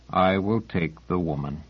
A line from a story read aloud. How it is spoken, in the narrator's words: the sergeant said in a beaten voice